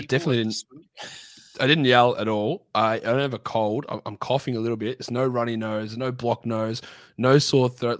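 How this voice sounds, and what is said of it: Croaky, hoarse voice. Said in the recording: “lost my voice, and it's just not back. So yeah, apologize for the croakiness of this sexy voice ... nothing apart from my voice just disappeared”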